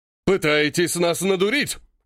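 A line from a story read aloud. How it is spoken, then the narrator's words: Angry bark. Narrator (Russian): рявкнул побагровевший Марков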